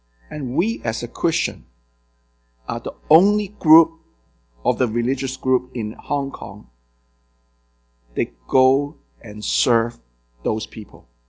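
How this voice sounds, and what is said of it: Hong Kong accented English. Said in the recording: “I raised in Hong Kong, you can tell by my accent.”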